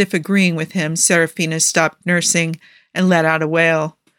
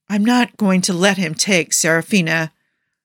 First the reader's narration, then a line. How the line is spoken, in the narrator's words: Jafar growled